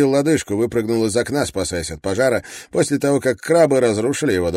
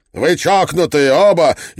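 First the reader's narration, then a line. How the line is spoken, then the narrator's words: Hysterical shouting. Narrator (Russian): истерично закричал МакКетчни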